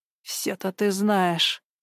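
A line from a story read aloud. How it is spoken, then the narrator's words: Grumbling. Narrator (Russian): проворчал Гена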